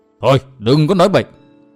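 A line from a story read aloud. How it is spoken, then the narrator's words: Old man, angry. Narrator (Vietnamese): lão tỏ vẻ tức giận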